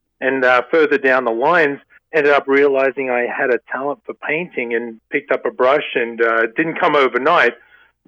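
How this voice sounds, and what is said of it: Australian accent. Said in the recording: “obviously, with the accent, come from Australia”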